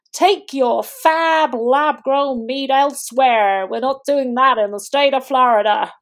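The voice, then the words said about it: Poorly done put-on accent. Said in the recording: “sorry, my rubbish accent.”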